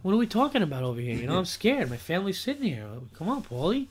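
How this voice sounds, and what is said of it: Imitated mobster film character voice. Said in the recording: “your impression ... The guy from Goodfellas talking to Paulie”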